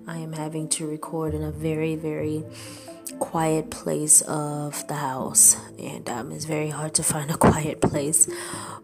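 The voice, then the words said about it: Quiet, low voice. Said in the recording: “my voice is low”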